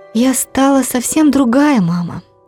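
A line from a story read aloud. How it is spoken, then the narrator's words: Sighing mother. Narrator (Russian): вздохнула моя мама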